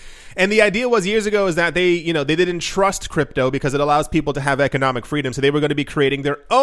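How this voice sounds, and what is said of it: Usual voice. Nothing is said of it.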